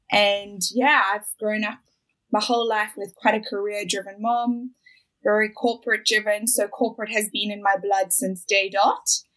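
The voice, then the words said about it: South African accent. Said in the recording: “As you can hear, I've got an accent. I'm not Australian. I'm originally from South Africa, from Johannesburg.”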